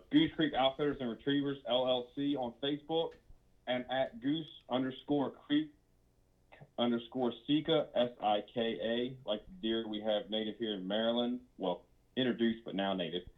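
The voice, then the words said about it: Hard-to-understand accent. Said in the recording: “nobody understands my accent.”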